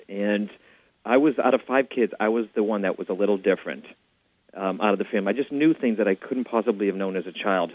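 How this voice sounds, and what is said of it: Boston accent. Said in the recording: “back in Boston, which the audience will probably pick up the accent.”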